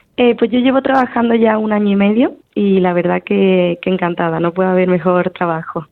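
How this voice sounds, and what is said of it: Andalusian Spanish accent, from Seville. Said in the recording (Spanish): “tú gallega no eres, ¿eh? Con, esa, con ese acento ... soy sevillana”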